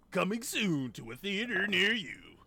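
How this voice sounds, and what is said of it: Loud movie trailer announcer voice. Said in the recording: “You gotta say that tagline in your best movie guy voice ... You're yelling in the mic. ... you got all the way in the mic”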